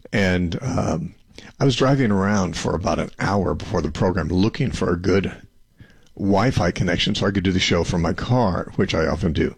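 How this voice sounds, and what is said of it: Slightly hoarse voice. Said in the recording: “I'm a little hoarse from speaking every day for the past 3 weeks”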